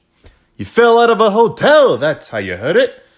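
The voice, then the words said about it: Slips into a put-on accent. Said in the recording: “I don't know why I just came into that fucking little accent there.”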